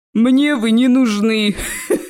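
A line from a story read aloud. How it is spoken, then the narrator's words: Laughing troll. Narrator (Russian): рассмеялся тролль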